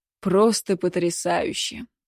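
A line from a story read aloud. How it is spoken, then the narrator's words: Muttering man. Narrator (Russian): пробормотал Кобзев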